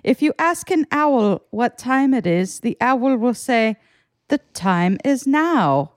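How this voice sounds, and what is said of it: Robotic audiobook-like voice impression. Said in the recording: “That's such a good Eckhart Tolle impression. ... he sounds like the robotic voice ... like if AI made an audiobook.”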